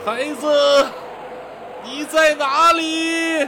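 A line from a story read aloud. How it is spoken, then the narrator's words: Distant woman weeping. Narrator (Chinese): 远处传来一阵女子啼哭声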